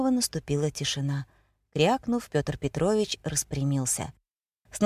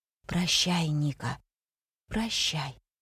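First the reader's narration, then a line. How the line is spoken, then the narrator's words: Barely audible whisper. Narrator (Russian): Митя еле слышно прошептал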